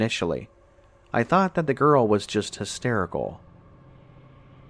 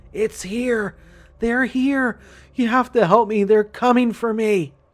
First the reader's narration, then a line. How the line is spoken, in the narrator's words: screaming